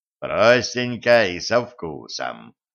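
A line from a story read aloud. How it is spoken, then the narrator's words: Contented sigh. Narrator (Russian): удовлетворенно вздохнул Кощей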